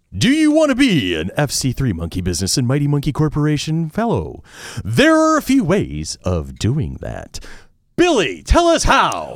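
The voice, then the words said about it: Exaggerated radio announcer voice. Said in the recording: “Should we do this in full radio voice? ... Radio voice again. I loved radio voice. ... Let's do radio voice.”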